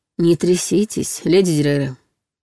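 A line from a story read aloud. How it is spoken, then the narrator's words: Muffled grumbling. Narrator (Russian): приглушенное ворчание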